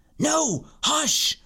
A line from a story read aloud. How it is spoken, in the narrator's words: Joshua said again in a harsh whisper